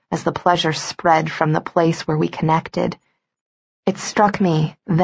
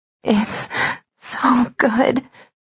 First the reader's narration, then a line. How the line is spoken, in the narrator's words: I sobbed, lost to him